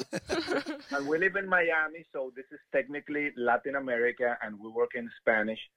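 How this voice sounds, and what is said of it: Colombian Spanish accent in English. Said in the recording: “We are originally from South America, Colombia. That's why we have this weird accent... Very weird accent.”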